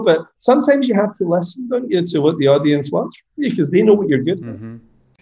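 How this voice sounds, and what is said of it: Strong accent, hard to understand. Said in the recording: “I can only apologize for my accent, but you guys play this back, it's going to be fucking incomprehensible.”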